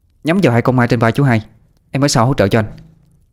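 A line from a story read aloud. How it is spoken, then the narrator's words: Sharp shout. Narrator (Vietnamese): Tú Linh mới quát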